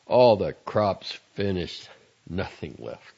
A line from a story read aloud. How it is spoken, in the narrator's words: he said